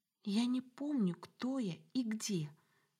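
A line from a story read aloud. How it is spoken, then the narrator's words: Whisper, muffled into shoulder. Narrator (Russian): шепнула ей в плечо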